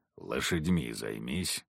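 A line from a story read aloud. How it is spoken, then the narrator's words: Hunter grumbling. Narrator (Russian): буркнул охотник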